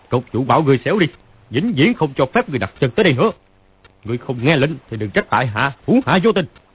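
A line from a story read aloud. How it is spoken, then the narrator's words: Loud shout. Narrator (Vietnamese): Phàn Nhất Ông quát to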